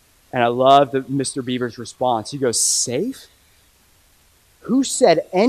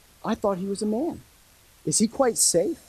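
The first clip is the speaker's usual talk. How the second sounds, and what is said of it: Cute little British accent. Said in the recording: “Imagine a cute little British accent.”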